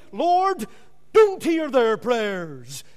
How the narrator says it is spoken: he often cried out as they were praying

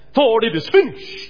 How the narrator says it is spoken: Jesus cried

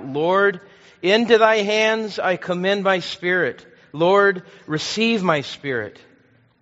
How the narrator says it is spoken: Ridley cried out

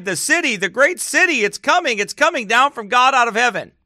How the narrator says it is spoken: We all cried

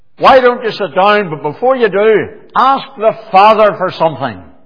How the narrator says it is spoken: he shouted out, he says

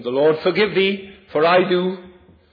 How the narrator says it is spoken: shouted after him

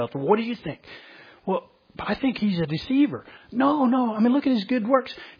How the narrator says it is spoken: almost like they whispered among themselves

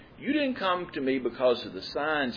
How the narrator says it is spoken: he says

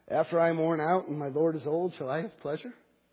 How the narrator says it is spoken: Sarah laughed to herself, saying

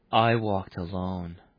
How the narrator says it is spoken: repeated softly

